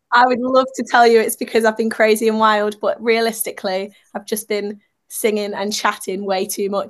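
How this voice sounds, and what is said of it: Croaky, sore-throated voice. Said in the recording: “I've got a bit of a sore throat... if I sound a bit croaky”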